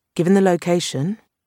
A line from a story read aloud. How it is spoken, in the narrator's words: Marlowe said dryly